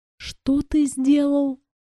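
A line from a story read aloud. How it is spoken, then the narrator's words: Disbelieving whisper. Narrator (Russian): прошептала я, не веря в то, что слышу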